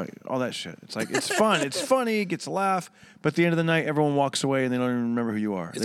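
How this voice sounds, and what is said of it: Usual voice. Nothing is said of it.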